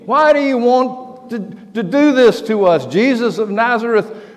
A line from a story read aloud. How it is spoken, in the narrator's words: he stands up and starts screaming